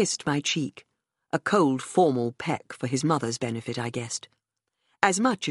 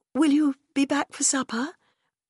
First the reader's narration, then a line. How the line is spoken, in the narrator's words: I said, trying to keep my voice light and unconcerned